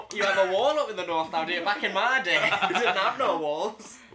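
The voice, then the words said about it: Exaggerated northern accent, drawn-out vowels. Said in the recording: “we amplify all northern possible features and factors ... Everything sounds more northern. All the vowel sounds a lot drawn out.”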